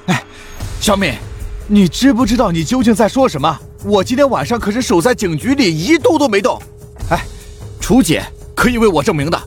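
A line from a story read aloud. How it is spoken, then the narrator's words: Anxious loud voice. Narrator (Chinese): 林东 顿时急了，高声道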